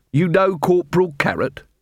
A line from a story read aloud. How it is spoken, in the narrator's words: Vimes snorted